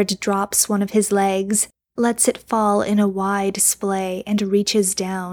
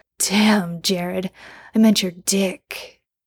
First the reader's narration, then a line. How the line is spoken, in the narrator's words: With a harsh laugh, Jensen says